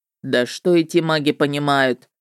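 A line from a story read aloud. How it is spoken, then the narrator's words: Snort, then casual question. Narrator (Russian): хмыкнул он, а потом небрежно поинтересовался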